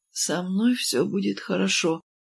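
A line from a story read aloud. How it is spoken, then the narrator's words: Listless mumble. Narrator (Russian): вяло пробормотала я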